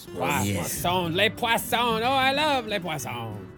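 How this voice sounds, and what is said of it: Bad put-on French accent. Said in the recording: “a bad French accent”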